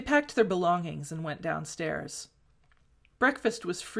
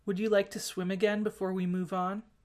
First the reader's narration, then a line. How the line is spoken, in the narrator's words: Wang Ji asked